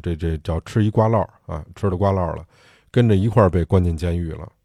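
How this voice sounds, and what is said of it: Beijing dialect speech. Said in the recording (Chinese): “用北京话”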